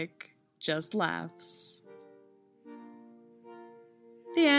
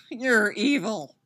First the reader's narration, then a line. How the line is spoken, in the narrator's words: Styles moans